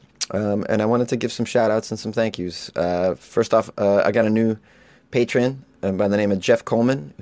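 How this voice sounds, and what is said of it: Hoarse, fading voice. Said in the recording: “I'm very hungover, and I'm starting to lose my voice”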